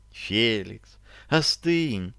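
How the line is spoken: Gentle, persuasive. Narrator (Russian): произнесла очень ласково и убедительно

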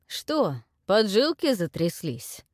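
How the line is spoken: Spiteful, curt. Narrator (Russian): Злобно бросил князь

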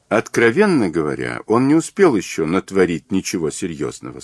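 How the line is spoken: Plain. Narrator (Russian): сказала Джейн

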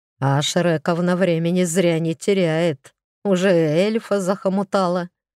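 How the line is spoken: Chuckle. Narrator (Russian): хохотнул Игорь

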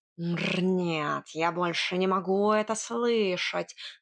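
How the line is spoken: Hissing. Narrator (Russian): зашипел Варфоломей

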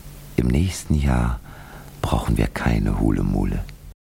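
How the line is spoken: Quiet. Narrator (German): Und leise sagte Itzenblitz

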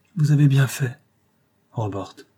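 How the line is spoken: Baronet's broken voice. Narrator (French): dit le baronnet d'une voix brisée

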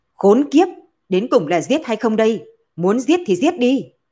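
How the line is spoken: Exasperated shout. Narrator (Vietnamese): Tằng Độc Chi không chịu nổi quát

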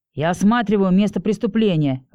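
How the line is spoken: Growled reply. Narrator (Russian): рыкнул в ответ

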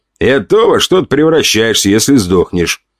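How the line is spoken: Snorting. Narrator (Russian): хмыкнул авторитет

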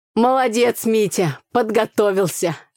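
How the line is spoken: Loud laughter. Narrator (Russian): расхохотался в ответ папа

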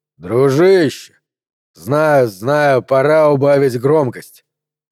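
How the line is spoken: Grumbled. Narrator (Russian): проворчал Гарднер

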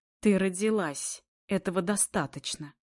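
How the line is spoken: Spat out angrily. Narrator (Russian): выплевывает зло

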